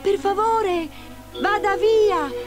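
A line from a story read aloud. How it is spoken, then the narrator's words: Exclaimed. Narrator (Italian): esclamò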